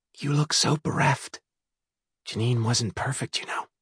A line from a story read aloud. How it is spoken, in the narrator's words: whispered